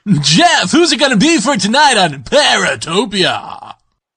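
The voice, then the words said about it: Exaggerated radio DJ voice. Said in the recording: “What the hell is that? ... It's my new DJ voice. Everyone's got to have a voice for the radio. ... you pretty much just sound like a douchebag”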